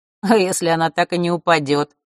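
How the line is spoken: Snorted. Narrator (Russian): хмыкнул Маар

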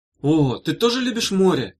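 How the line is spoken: Exclamation. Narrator (Russian): воскликнула Бетла

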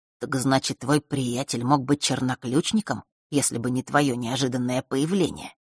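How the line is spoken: Barely audible, very quiet. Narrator (Russian): произнес он так тихо, что даже девочка еле услышала его

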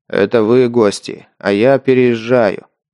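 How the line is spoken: Deep bass reply. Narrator (Russian): пробасил в ответ Рок

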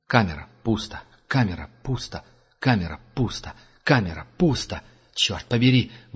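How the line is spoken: Breathless exhale. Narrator (Russian): выдохнул следопыт

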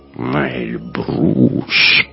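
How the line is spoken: Drawled. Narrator (Russian): протянул лейтенант

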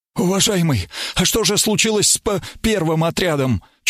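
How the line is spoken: Slightly stammering question. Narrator (Russian): Чуть заикаясь, спросил тот, что поменьше ростом

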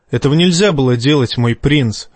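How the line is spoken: Plain. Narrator (Russian): ответил Жаен

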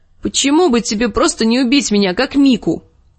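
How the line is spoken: Angry shout. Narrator (Russian): крикнула Арья, которая не столько испугалась, сколько разозлилась

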